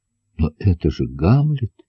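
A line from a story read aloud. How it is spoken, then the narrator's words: Quiet. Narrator (Russian): тихо сказала Эвридика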